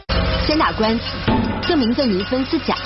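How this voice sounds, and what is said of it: Jiangxi Wuyuan dialect accent. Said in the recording (Chinese): “范冰冰操着一口江西婺源口音，但对于生长在北方的她来说，可不是件容易的事儿”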